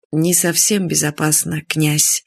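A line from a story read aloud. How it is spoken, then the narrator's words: Frowning sigh. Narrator (Russian): вздохнул и нахмурился маршал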